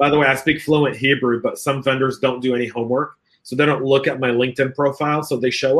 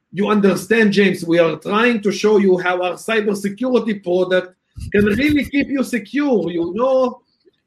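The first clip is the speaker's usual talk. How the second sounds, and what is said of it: Put-on Hebrew accent, broken English. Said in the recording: “better with a Hebrew accent. Yes, I do love the Hebrew accent ... they're breaking English”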